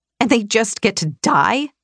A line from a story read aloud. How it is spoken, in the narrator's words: I spat